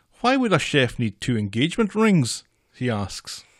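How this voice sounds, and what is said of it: Put-on Irish accent. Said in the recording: “That was my Irish impression.”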